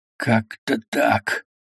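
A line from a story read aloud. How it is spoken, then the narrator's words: Hoarse rasp, close up. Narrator (Russian): просипел ему в лицо мозай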